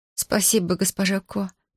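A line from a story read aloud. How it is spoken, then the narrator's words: Mumbled. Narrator (Russian): мямлю я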